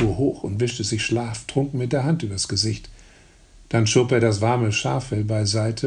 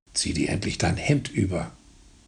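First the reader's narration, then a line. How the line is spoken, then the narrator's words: Mother growling. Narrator (German): knurrte die Mutter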